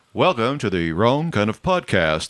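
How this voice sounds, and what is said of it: Put-on radio announcer voice. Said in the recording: “This is my radio voice for you new listeners.”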